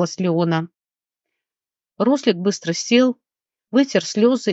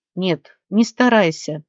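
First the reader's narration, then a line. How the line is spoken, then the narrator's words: Trembling voice. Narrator (Russian): дрожащим голосом ответил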